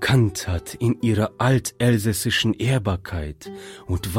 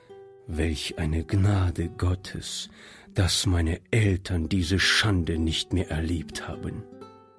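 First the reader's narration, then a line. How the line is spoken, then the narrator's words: Quiet muttering to himself. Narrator (German): sagte Monsieur Joubert leise vor sich hin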